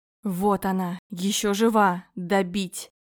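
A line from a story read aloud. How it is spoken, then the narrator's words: Hiss with strange accent. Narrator (Russian): прошипел со странным акцентом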